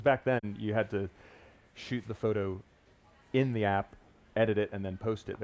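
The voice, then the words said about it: Non-local accent. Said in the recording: “people will notice from your accent that you're not from these waters”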